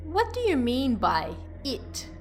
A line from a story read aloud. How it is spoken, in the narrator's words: I asked her